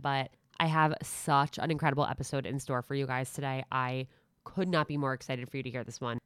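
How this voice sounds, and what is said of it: Nasally, congested voice. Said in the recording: “I'm a little more nasally than usual right now. ... I have a little bit of a cold”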